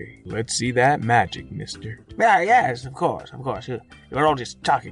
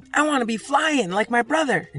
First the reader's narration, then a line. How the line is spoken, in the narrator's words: blurting out